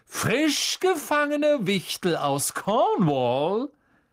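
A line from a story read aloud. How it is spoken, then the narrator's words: Theatrical voice. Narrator (German): sagte mit theatralischer Stimme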